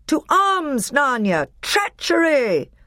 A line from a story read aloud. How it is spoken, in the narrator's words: Peter shouted